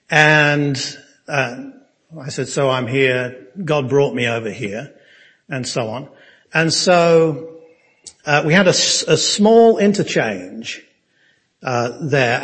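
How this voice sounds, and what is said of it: English accent. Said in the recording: “you've got an English accent”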